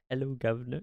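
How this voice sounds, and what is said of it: Funny put-on British accent. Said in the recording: “in like a funny British accent”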